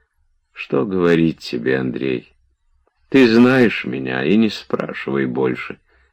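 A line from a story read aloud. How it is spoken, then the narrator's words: Sad. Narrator (Russian): печально сказал Обломов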